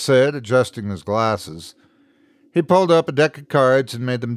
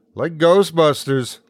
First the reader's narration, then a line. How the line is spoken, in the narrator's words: laughed Jet